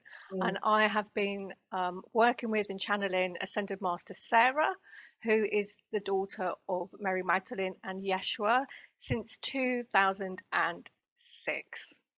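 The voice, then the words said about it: British accent. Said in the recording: “I'm British, as people could probably hear from my accent.”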